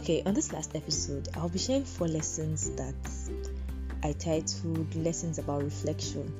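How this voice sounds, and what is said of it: Slightly off, unwell-sounding voice. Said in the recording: “My voice might sound a little off today. I'm under the weather”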